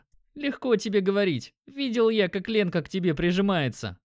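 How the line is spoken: Chuckled. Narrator (Russian): хохотнул друг

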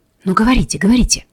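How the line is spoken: Whisper. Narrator (Russian): шепнул наконец Шахов

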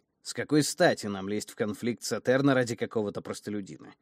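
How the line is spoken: Cold inquiry. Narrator (Russian): холодно осведомился Нис

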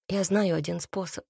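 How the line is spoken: Quiet, evasive. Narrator (Russian): произнесла она тихо, словно пряча от него взгляд

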